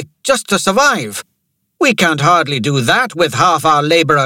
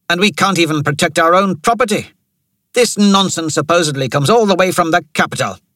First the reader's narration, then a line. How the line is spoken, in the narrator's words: Rain snapped